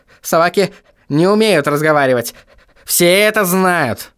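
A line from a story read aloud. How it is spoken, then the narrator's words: Growled. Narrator (Russian): прорычал В горле кость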